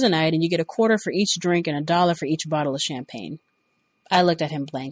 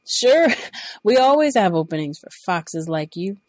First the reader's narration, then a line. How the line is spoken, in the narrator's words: he laughed